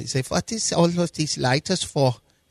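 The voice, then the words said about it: Put-on German accent. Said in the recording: “your German accent”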